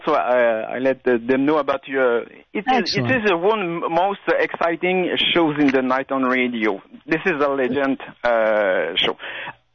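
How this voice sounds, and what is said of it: French Canadian accent. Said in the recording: “I apologize ... For my French accent. I'm from Quebec.”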